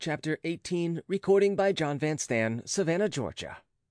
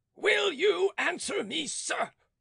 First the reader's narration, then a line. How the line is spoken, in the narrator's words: advanced furiously towards him, saying